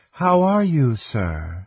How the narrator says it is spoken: asked anxiously

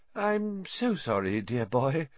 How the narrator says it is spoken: she said dreamily

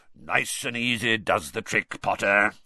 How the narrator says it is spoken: he growled

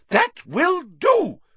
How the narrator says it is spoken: shrieked Madame Hooch

